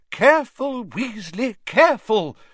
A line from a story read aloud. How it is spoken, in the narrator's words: cried Professor Sprout as the beans burst into bloom before their very eyes